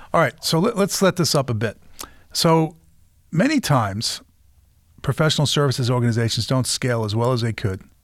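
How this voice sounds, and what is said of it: Massachusetts (Boston-area) accent. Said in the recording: “I grew up in Peabody, Massachusetts, so you probably have heard lots of guys with my accent.”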